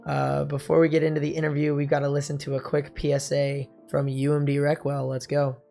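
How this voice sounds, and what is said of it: Hoarse, deeper voice. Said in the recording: “my voice is a little hoarse today... my voice has been a little messed up ever since then... Maybe it makes my voice sound a little deeper, more brooding”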